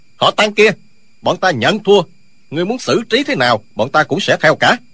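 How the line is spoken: Shouted. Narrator (Vietnamese): Hai sư đệ liền quát lên

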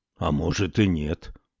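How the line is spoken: Stubborn mutter. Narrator (Russian): упрямо пробормотал Салиман

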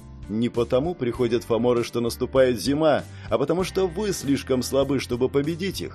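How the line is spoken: Plain. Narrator (Russian): так она сказала

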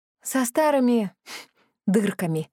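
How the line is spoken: Sigh. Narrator (Russian): вздохнула

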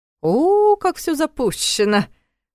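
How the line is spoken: Mocking drawl. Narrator (Russian): насмешливо протянул Карл

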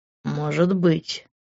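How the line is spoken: Muffled mutter against lips. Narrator (Russian): пробормотал он, сильнее прижимаясь ко мне губами

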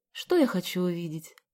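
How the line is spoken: Sighing. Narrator (Russian): вздохнула Галя

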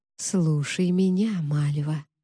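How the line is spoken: Quiet but clear. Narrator (Russian): тихо, но четко произнесла Аманда

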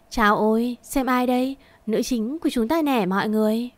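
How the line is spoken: Mocking, raised voices. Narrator (Vietnamese): một vài người xúm lại lên giọng rẻ bỉu

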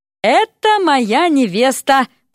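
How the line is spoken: Exaggeratedly cheerful exclamation. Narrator (Russian): преувеличенно весело воскликнул Эрик

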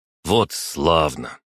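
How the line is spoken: Grumble. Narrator (Russian): проворчал Сёма

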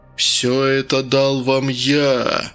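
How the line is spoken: Creaky voice. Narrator (Russian): проскрипел голос

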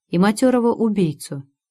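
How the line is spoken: Sighed. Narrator (Russian): вздохнул

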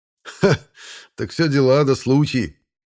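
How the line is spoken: Laughing chuckle. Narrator (Russian): Хохотнул хозяин дома

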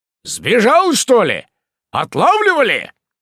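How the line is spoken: Shouting over engine noise. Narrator (Russian): прокричал он, перекрикивая тарахтение мотора

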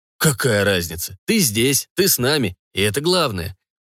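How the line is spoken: Cheerful. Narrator (Russian): бодро выдал Ник

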